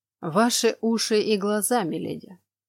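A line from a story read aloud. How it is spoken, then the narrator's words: Calm reply, man. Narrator (Russian): спокойно отозвался мужчина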